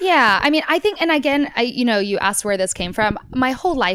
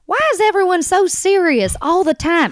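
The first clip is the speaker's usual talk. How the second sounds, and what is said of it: Imitates another person's Oklahoma accent. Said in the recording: “this is how he actually sounds, so I can confidently give that accent ... From Oklahoma? ... My family's from Texas”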